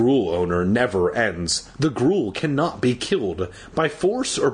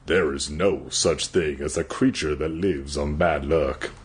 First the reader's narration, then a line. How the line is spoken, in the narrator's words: I said in a low voice